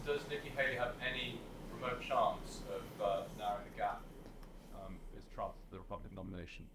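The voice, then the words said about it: American accent. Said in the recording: “It's always the American accent.”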